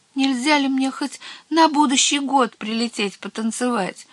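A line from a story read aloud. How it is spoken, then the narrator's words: Small one's timid question. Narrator (Russian): робко спросила маленькая Баба-Яга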